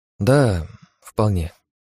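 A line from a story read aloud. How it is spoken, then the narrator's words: Uncertain reply. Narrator (Russian): как-то неуверенно ответила она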